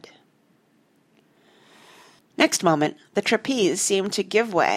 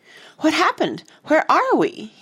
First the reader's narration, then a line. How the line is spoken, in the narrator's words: he cried dazedly